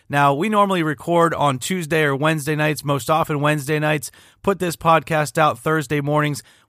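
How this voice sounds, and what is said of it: Hoarse, nearly lost voice. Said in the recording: “I just don't have much of a voice left after last night ... As you can tell from my voice, I was reacting all night long ... You have no voice.”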